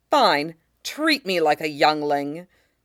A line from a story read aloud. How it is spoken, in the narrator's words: with a spat